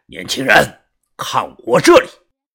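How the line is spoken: Loud. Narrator (Chinese): 大声的说

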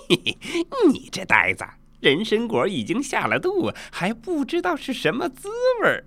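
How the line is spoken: Laughing. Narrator (Chinese): 孙悟空笑道

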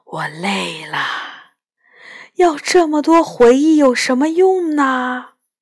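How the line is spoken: Deep weary sigh. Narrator (Chinese): 白泽深深叹了一口气，然后说

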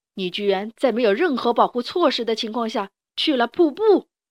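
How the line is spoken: Angry loud rebuke. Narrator (Chinese): 国王更生气了，他大声斥责

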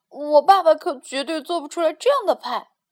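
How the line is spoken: Amazed. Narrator (Chinese): 杰米惊叹道

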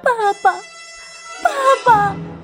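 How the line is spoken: Holding back grief. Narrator (Chinese): 野兽强忍着悲痛说

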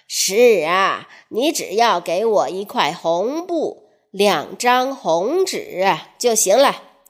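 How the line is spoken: Slow old man. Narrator (Chinese): 老乞丐慢吞吞地说

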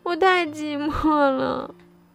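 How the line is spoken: Crying. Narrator (Chinese): 小老鼠哭了起来

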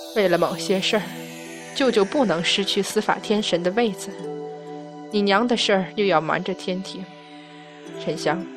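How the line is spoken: Gentle soft voice. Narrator (Chinese): 柔声道

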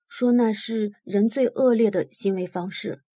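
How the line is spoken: Low voice. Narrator (Chinese): 我低声说

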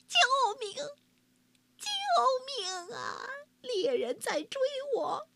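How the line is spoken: Panting, pleading wolf. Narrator (Chinese): 一只狼吭哧吭哧吭哧跑过来，他边跑边哀求东郭先生说

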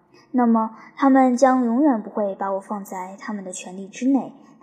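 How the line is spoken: Sighing. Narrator (Chinese): 伊斯莫涅叹道

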